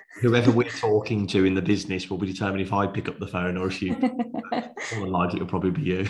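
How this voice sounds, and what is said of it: Birmingham (Brummie) English accent. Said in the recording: “You won't have the Brummy accent then.”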